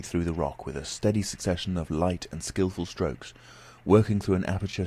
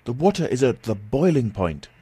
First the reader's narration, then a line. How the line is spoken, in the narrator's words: I cried